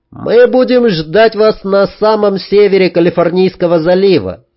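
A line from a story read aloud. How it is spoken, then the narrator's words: Overly loud. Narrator (Russian): излишне громко сказал Вадим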